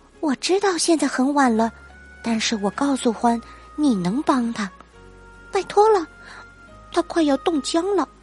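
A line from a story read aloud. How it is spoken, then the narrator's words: Whisper, little mouse. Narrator (Chinese): 小老鼠悄声说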